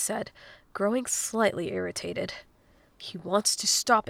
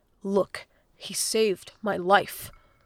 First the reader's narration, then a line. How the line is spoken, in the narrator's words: Link said firmly